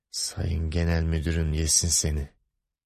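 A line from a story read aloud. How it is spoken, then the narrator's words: Muttering. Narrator (Turkish): diye mırıldandı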